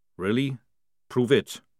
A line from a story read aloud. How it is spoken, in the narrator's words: said Jackram calmly